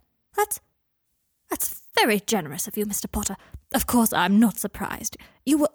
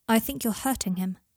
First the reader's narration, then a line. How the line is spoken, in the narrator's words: said Harry coldly